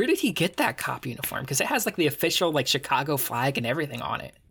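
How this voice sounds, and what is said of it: Usual voice. Nothing is said of it.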